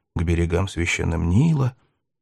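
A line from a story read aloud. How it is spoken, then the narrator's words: Muttered. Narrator (Russian): что-то бормотал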